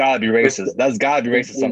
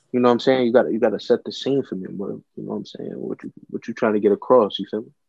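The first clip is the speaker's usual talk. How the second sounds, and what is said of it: Put-on deep smooth voice. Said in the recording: “I gotta get my deep voice going”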